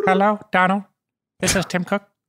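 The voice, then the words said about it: Imitates another person's voice. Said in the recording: “I do a Tim Cook impression.”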